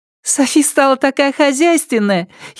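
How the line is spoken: Giggling. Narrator (Russian): хихикнула

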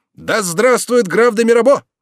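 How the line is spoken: Shouted. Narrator (Russian): Пету ... прокричал

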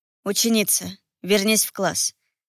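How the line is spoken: Calm command. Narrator (Russian): спокойно велел

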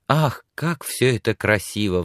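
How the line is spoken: Admiring sigh. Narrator (Russian): вздохнула Сексон

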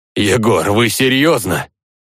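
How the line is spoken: Exclaiming. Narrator (Russian): воскликнул подошедший

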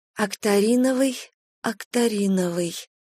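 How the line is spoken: Whispering under breath. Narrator (Russian): шептала под нос Ириска

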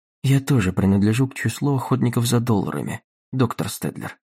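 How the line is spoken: Quiet interjection. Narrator (Russian): вставила Дагни негромко

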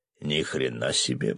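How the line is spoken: Muttered. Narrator (Russian): пробормотал рыбак

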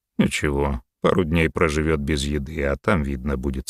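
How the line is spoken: Calm. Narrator (Russian): спокойно ответил Рахотеп

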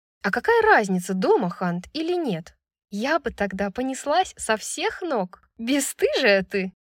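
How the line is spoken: Laughing. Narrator (Russian): засмеялась Брайс

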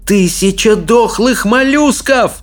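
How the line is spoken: Yelling. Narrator (Russian): завопил Икинг

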